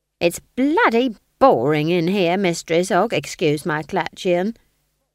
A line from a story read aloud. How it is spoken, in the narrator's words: he says